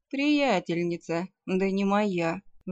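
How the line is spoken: Sighing. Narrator (Russian): вздохнул вампир

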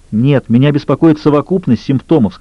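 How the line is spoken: Plain. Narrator (Russian): сказала Эмма

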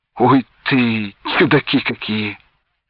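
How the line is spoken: Doubtful mutter. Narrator (Russian): недоверчиво пробормотал Венька

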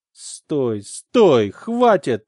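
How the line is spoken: Moaning. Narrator (Russian): простонала она

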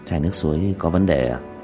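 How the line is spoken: Quiet question. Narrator (Vietnamese): Diệp Thiếu Dương nhỏ giọng hỏi

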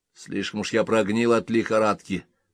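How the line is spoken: Grumbling. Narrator (Russian): проворчал Боркман

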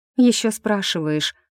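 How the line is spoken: Breathy. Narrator (Russian): выдохнула брюнетка

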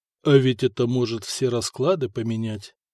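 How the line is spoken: Grumbled under breath. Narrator (Russian): пробурчал себе под нос

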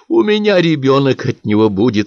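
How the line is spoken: Sudden. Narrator (Russian): вдруг проговорила Зоя и снова зарыдала

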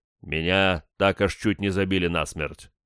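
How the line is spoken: Gloomy reply. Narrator (Russian): мрачно ответил

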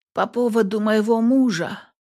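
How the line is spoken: Hoarse, lifeless voice. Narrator (Russian): сиплым безжизненным голосом уточнила я

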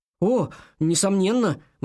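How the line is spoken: Exclaiming. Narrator (Russian): воскликнул он

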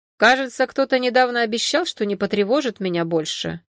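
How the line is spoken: Displeased tone. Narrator (Russian): напомнил недовольным тоном

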